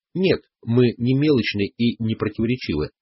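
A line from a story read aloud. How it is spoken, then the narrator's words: Plain. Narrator (Russian): ответил он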